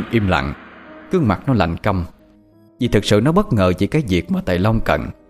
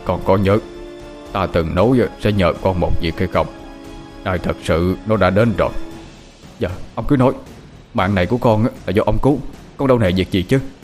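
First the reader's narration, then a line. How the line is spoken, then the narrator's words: Very grave. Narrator (Vietnamese): Thầy Long nói với giọng rất nghiêm trọng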